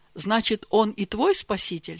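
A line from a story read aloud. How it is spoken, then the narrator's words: Plain question. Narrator (Russian): спросила мама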